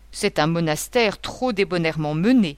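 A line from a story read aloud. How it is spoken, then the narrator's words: Terrible growl. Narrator (French): grondait le terrible monsieur Lampre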